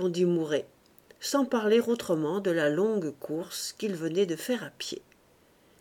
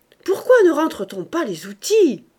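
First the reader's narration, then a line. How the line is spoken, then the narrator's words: Exclaimed. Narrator (French): s'écria-t-il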